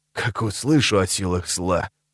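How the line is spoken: Grumbling. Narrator (Russian): проворчал Виторм

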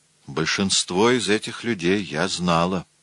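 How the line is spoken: Hoarse female voice. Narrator (Russian): хриплым голосом сказала она

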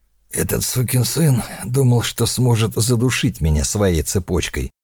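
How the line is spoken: Strained wheeze. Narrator (Russian): прохрипел фон Бок, пытаясь встать

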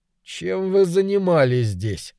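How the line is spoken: Through gritted teeth. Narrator (Russian): сквозь зубы проговорил мужчина

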